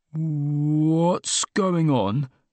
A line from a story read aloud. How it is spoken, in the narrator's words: I asked, in the wary voice of a man who felt he should have known, but didn't